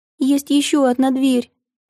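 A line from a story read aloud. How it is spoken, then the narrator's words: Squeaky girl's voice. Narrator (Russian): пискнула девочка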